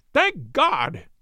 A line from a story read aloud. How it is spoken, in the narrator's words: he cried